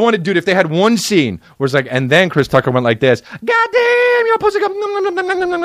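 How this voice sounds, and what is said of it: Usual voice. Nothing is said of it.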